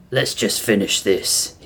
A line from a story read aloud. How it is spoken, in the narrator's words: he muttered